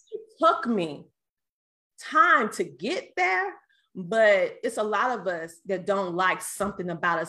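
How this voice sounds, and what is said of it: Southern American twang. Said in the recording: “the way I sound... My voice. I hated my Southern twang.”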